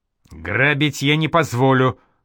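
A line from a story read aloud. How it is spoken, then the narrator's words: Angry prince yelling. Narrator (Russian): зло заорал уйгурский князь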